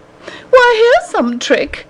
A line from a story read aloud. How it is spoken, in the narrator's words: the lady cried